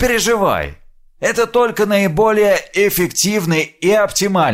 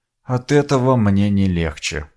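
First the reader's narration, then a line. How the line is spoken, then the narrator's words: Muttered. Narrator (Russian): пробормотал я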